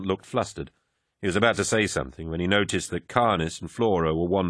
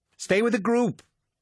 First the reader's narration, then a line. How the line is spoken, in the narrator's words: Emont cried out